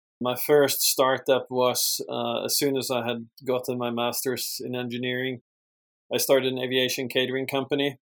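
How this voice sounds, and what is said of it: Swedish accent. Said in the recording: “I obviously born and raised in Sweden, hence the accent.”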